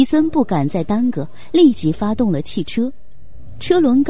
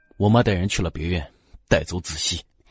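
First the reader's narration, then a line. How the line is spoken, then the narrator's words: Low, through gritted teeth. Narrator (Chinese): 荣寒生 眸色阴暗，咬牙低声道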